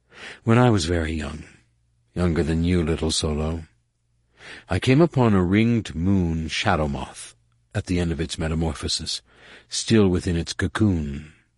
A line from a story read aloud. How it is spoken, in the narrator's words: she said distantly, a little sadly